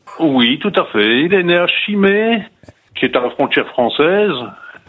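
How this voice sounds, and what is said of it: Vendée regional French accent. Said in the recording (French): “je reconnais votre accent vendéen”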